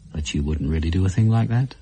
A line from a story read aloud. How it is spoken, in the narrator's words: said quite calmly